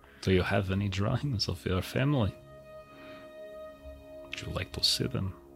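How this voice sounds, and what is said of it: Put-on character accent. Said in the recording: “this is a very addicting accent. ... I know you like that voice.”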